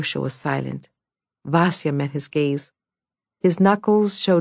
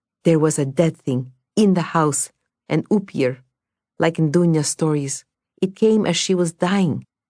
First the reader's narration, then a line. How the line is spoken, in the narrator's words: said Vasya urgently